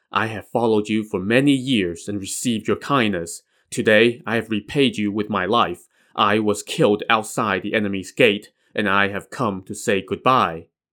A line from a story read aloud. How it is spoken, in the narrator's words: the figure murmured